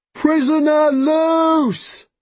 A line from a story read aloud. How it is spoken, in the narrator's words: he bellows